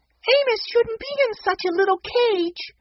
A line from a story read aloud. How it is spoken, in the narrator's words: Benny begged